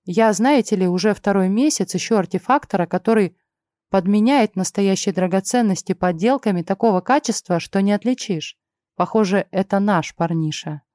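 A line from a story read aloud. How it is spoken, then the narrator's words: Plain. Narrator (Russian): сказал Вит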